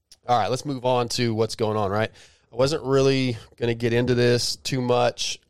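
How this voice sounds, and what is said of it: Sick-sounding voice. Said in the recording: “Sorry about my voice, too. I've been a little bit sick.”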